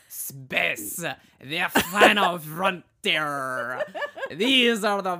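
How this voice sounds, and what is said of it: Bad French accent, Inspector Clouseau-like. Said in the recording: “do you want to try a French accent? He's like, it's not good ... It's like Inspector Clouseau”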